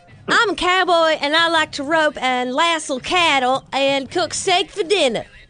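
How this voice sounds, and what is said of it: Put-on Texas accent. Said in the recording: “what is your Texas accent?”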